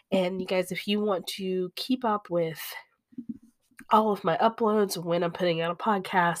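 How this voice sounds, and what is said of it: Short of breath, sick-sounding voice. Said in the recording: “I've been a little short of breath... all a little bit under the weather... we are all still kind of sick. So you can maybe have heard it in my voice”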